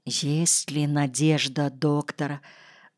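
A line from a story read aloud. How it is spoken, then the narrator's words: Timid whisper. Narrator (Russian): робким шепотом спросил Ситников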